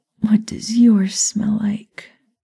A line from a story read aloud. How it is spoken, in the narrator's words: She asked him, moaning